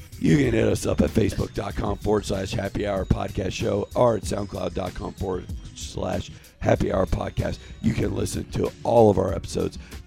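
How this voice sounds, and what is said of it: Worn-out voice, somewhat drunk. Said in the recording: “My voice is half shot and I'm half drunk.”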